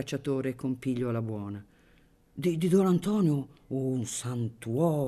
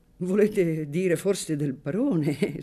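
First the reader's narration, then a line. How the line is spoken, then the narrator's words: Hunter laughing. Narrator (Italian): soggiunse ridendo il cacciatore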